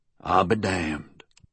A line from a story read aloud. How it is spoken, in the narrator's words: said softly